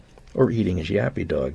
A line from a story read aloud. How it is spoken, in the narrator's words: said Marco